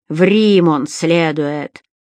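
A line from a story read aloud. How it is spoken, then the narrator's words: Snort. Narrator (Russian): хмыкнул второй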